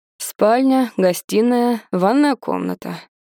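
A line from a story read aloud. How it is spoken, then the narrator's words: Dry tone. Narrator (Russian): говорит сухо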